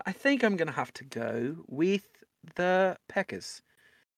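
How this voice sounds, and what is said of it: Put-on British accent drifting Australian. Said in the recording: “I'm going to have to do them in an accent ... I've been working on my Australian accent, my British accent starts to morph a little bit halfway through ... I'm just an Australian accent now. I've lost my ability to do an English accent.”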